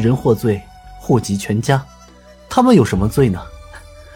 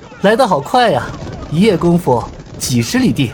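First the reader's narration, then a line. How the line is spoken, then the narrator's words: Laughing. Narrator (Chinese): 尹建平笑道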